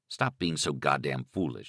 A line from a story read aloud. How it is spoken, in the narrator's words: he told himself